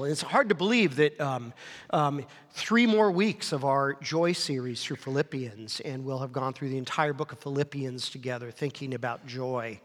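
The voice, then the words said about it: Slightly off, sick-sounding voice. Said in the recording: “my voice sounds a little funny, I've still been sick ... my voice is a little bit off”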